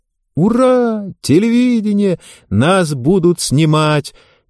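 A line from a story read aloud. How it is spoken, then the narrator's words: Joyful clamor of girls. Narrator (Russian): Девочки из средневозрастной группы радостно заголосили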